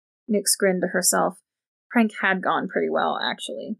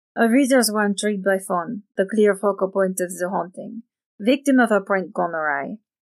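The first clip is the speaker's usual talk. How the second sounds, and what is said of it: Thick French accent. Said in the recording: “the woman's thick French accent”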